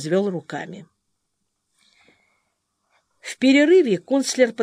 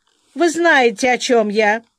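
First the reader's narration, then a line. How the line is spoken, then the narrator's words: Offended. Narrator (Russian): обиженно сказал Виткувер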